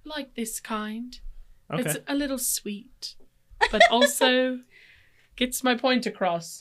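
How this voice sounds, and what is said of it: Precocious, sweet put-on British accent. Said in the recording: “British ... A precocious British accent ... It's like the lady from the British Bake Off.”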